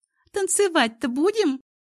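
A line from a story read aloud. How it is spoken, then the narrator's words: Cheerful giggle. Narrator (Russian): весело хихикнула Катя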